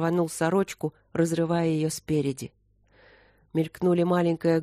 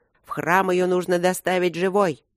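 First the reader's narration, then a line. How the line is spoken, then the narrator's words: Growled. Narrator (Russian): Венши зарычал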